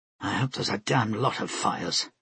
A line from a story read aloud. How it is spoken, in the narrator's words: Flora murmured to herself